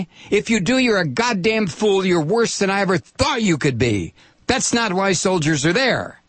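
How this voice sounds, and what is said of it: Yelling. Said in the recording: “I'm yelling again”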